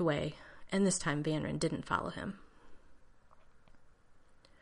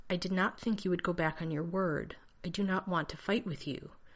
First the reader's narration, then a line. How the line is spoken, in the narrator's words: Vanren said stiffly